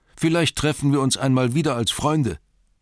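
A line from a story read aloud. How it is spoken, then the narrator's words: Calling out. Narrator (German): rief ihnen zu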